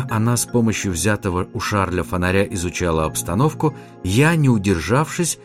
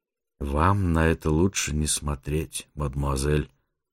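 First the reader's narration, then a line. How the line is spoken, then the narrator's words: Grave sepulchral tone. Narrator (Russian): за могильным тоном отозвался я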